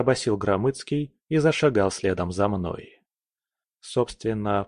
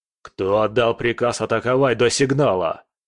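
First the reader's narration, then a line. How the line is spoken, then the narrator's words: Growled. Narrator (Russian): первым прорычал Громыцкий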